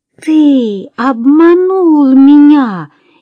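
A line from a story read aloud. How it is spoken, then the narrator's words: Furious shout. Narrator (Russian): яростно закричала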